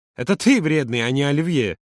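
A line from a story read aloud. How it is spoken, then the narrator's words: Laughing. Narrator (Russian): Юра засмеялся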